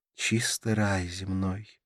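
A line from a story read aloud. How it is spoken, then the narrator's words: Sighing. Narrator (Russian): вздохнула Карла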